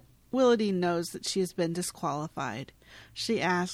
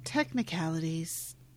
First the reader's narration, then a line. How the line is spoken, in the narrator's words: Rosie says sadly